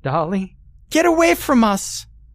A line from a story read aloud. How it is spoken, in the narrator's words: Dolly screeched